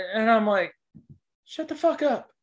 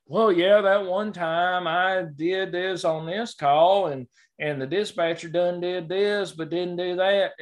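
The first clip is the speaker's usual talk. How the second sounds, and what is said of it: Put-on Southern accent. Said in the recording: “you did that in a Southern accent.”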